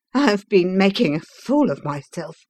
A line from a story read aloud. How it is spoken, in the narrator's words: he gasped